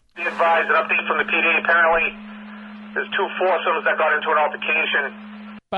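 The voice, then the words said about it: Boston accent. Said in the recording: “I love the Boston accent. You could already hear it.”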